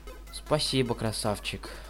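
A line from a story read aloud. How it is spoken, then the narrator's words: Soft. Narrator (Russian): тихонько сказала она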